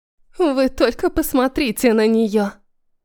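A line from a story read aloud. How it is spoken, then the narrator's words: Scornful snort from behind. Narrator (Russian): Пренебрежительно фыркнули за моей спиной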